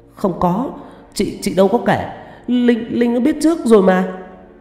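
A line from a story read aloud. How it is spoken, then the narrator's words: Pale stammering. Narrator (Vietnamese): Tâm mím môi mặt tái mét, lắp bắp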